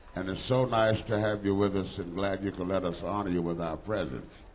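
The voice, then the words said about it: Mississippi Southern US accent. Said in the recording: “this Mississippi accent that I have”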